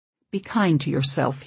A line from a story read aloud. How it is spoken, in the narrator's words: he says softly in my ear